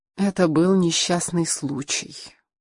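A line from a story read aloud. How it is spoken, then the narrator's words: Weary reply. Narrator (Russian): устало ответила Хелена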